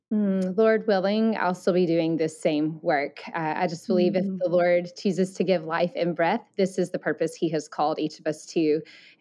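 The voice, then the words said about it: Southern US accent. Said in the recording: “I love your deep Southern accent ... I grew up in Alabama, so that's where my Southern accent, though I feel like it's probably less than it was before”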